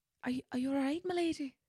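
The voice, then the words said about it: Put-on Scottish or Irish accent. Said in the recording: “I'm going to go Scottish ... trying to decipher if you were speaking in an Irish accent ... Yeah, I think I'm Irish. ... another accent added”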